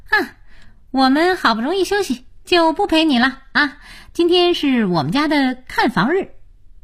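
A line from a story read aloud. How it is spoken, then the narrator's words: Cheerful, smiling. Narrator (Chinese): 才智笑眯眯地说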